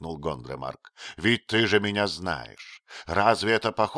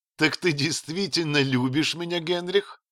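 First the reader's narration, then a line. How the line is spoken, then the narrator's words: Laughing question. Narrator (Russian): спросила она, смеясь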